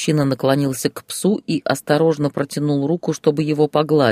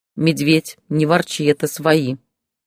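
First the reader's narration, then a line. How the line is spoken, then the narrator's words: Stern. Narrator (Russian): строго сказала Зоя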